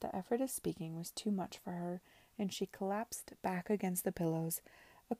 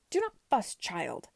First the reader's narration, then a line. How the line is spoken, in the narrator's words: Lady Denham cried, as soon as she had sufficient strength